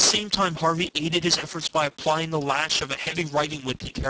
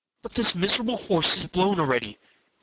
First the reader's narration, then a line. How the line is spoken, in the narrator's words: cried Henry